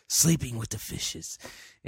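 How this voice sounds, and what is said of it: Mafioso impersonation voice. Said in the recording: “that's my best mafioso impersonation. Although I haven't really worked on a mafioso impersonation.”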